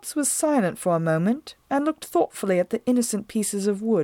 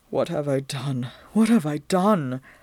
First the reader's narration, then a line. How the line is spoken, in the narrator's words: Whitmo was moaning